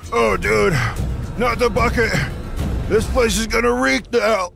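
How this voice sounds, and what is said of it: Breathless, out-of-breath speech. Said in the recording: “I'm running out of breath.”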